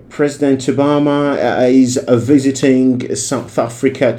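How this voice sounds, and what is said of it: British BBC-style accent. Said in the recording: “For me to get this British accent ... I could imitate ... To imitate the accent.”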